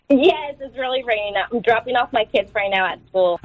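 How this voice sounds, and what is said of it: Bright, cheerful voice. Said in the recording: “you sound so bright and cheerful this morning”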